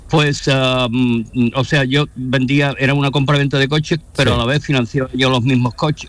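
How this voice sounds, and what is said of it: Sevillian Spanish accent with American tinge. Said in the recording (Spanish): “Tiene el acento. Bueno, sevillano, americano.”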